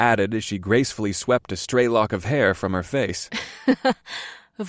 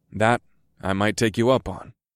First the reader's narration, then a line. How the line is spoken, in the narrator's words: I said in a serious tone